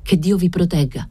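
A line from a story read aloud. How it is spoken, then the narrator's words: Exclaimed. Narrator (Italian): esclamai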